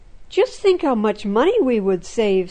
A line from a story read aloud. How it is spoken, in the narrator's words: someone else exclaimed